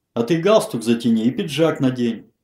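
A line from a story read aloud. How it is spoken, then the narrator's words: Harsh bark. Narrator (Russian): рявкнул Малышев на Федорова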